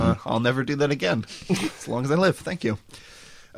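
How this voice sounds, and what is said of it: Usual voice. Nothing is said of it.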